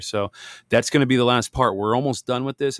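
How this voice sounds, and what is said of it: Worn, strained voice, mumbling. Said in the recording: “if I sound like I'm mumbling here ... I'm trying to, like I said, get my voice back. It's been kind of a struggle.”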